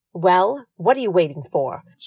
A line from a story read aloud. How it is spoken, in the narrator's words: she barked